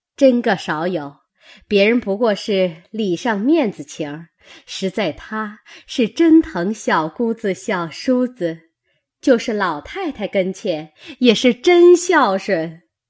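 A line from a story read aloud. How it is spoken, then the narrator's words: Laughing together. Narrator (Chinese): 薛姨妈、李婶娘、尤氏齐笑说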